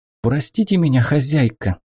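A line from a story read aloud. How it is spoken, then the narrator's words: Frightened whisper. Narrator (Russian): испуганно прошептала служанка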